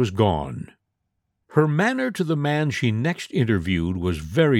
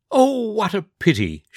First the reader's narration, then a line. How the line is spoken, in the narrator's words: she exclaimed